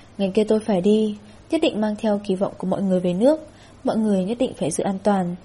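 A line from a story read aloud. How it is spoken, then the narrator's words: Gloomy sigh. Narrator (Vietnamese): Lâm Quốc Chu mặt âm trầm, thở dài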